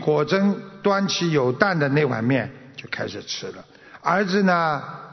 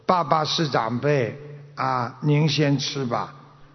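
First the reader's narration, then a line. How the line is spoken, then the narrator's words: Child, slow. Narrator (Chinese): 儿子有点懂事了，就慢慢说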